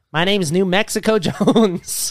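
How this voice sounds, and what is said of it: Put-on accent. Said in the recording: “accent for New Mexico”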